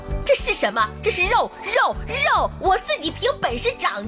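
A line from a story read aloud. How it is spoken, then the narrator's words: Angry roar. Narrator (Chinese): 亚楠愤怒地大声地吼道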